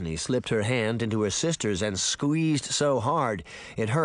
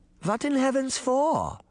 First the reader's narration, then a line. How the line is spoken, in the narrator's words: Granny Relda exclaimed